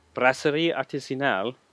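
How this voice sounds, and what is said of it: Bad put-on French accent. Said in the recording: “That's one of my worst French accents.”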